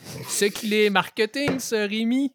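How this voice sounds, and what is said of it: Put-on accent from France. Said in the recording (French): “je vais prendre l'accent... Est-ce que j'avais l'accent?... Oui”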